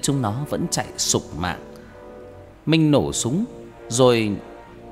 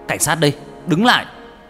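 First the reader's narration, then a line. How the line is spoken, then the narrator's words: Shouting. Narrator (Vietnamese): hét lên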